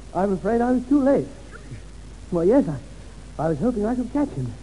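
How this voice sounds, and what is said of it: Pretends to be out of breath. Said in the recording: “I must remember to be out of breath ... I'm a bit out of breath.”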